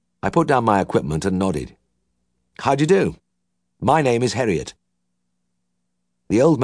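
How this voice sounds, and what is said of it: Usual voice. Nothing is said of it.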